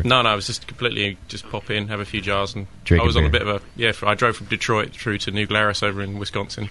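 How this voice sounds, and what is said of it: English accent. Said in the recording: “He's got an accent. ... An Englishman all the way in California.”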